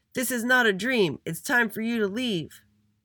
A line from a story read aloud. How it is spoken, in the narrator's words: All together, they shouted